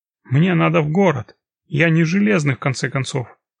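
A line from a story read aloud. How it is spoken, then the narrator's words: Angry indignation. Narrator (Russian): зло возмущался он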